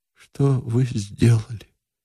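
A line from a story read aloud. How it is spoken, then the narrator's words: Quiet question. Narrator (Russian): наконец спросил он тихо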